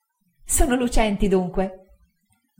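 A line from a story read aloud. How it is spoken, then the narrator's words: Laughing reply. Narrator (Italian): rispose Dora ridendo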